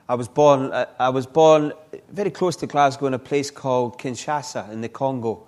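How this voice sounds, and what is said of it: Scottish accent. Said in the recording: “this lovely Scots accent”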